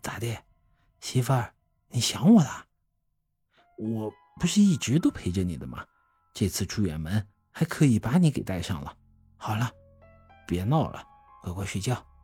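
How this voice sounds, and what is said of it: Quiet, joking murmur. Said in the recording (Chinese): “开玩笑似的小声说道”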